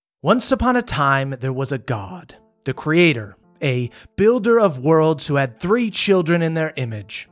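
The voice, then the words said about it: Vaguely British storyteller narrator voice. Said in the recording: “in a vaguely British narrator voice that I slowly lose as the story goes on”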